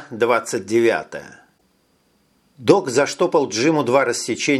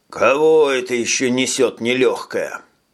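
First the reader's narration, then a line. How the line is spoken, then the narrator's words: Passing mechanic grumbling. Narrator (Russian): пробурчал проходивший мимо механик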